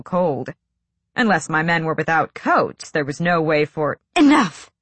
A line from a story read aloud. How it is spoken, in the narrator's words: Selena snapped